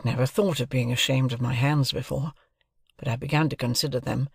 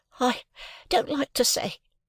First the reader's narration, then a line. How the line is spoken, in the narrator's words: I stammered